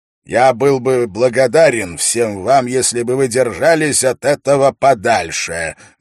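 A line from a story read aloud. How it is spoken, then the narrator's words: Loud and clear. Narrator (Russian): громко и четко произнес Дункан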